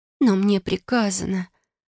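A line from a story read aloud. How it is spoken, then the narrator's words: Uncertain drawl. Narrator (Russian): неуверенно протянула она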